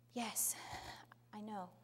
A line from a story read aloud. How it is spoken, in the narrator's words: very quietly she said